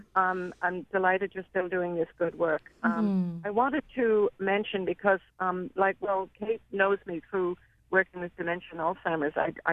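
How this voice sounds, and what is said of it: Speaks with a noticeable accent. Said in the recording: “She will recognize my accent”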